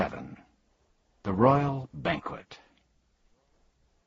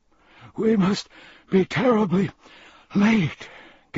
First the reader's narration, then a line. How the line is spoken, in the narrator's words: gasped the Earl, nervously